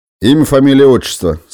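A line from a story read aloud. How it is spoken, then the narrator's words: Menacing. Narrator (Russian): сказал он грозно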